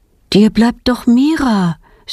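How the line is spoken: Plain. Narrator (German): sagt ihre Mutter

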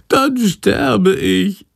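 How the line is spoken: Wailing. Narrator (German): jammert Chandor

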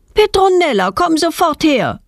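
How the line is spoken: Mother calling from window. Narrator (German): ruft ihre Mutter aus dem Wohnzimmerfenster

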